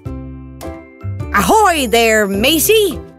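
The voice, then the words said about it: Pirate character voice. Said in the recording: “do a pirate voice?”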